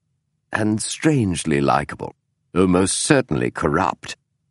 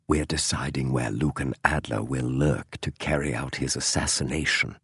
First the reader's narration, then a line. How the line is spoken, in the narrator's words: Holmes said so softly it was almost a whisper